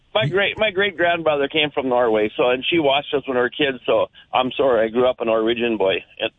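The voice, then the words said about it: Thick Minnesota accent. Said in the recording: “you embody that Minnesota accent so well ... you have the thickest Minnesota accent”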